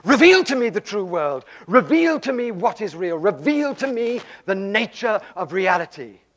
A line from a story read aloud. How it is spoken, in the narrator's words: cried out to God, and he said to God again and again, night after night